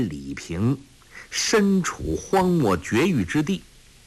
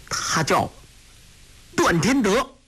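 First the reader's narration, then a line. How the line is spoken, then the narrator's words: Through gritted teeth. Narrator (Chinese): 郭靖咬牙切齿地说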